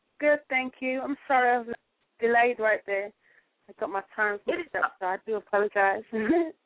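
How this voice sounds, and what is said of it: British English accent. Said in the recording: “you have an accent like that... you're from England.”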